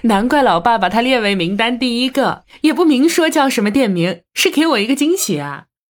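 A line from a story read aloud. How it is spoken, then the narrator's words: Delighted laughing. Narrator (Chinese): 王禅拍手笑道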